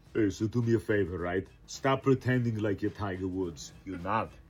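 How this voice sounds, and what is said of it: Arnold Schwarzenegger impression. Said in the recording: “He's a good impersonator ... that's talented ... an Arnold Schwarzenegger impersonation”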